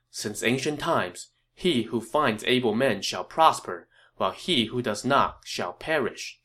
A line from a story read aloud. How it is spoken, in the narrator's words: Zhou Yu said